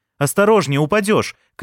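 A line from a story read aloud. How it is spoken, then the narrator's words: Shouted. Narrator (Russian): крикнул я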